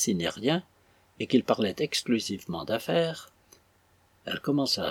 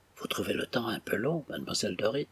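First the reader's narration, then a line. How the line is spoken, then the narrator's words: Low voice. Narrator (French): demanda-t-il à voix basse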